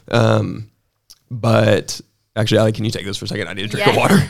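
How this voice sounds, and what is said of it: Hoarse voice, getting over a cold. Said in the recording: “I'm getting over a cold ... I'm losing my voice.”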